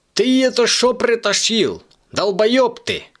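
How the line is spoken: Furious yelling. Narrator (Russian): орал всегда спокойный Димок

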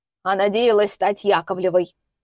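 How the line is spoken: Husband snorting. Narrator (Russian): фыркнул супруг

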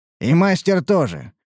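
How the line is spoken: Snorting grunt. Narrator (Russian): хмыкнул Мрадиш

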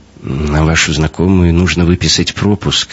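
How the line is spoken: Uncertain guard. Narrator (Russian): неуверенно проговорил охранник

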